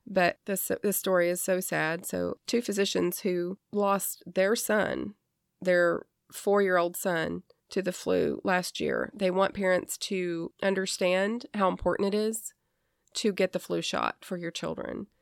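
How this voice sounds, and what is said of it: Strained, fading, worn-out voice. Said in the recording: “I just suffered with the flu ... you can hear from my voice already because I've been talking for about an hour now. So my voice is like, okay, that's enough. Starting to go.”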